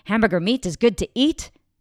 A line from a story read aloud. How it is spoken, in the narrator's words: says very loudly